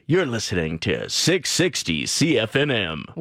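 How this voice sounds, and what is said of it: Radio announcer voice. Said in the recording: “That was a good radio voice.”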